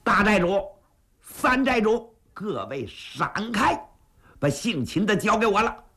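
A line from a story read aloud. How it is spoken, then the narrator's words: Big monk shouting. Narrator (Chinese): 圆角这大和尚喊了一声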